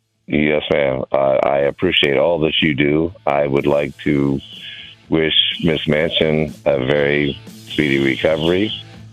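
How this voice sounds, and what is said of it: Deep radio-style voice. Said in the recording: “I love that voice. You got to be a radio voice with that great, deep voice of yours”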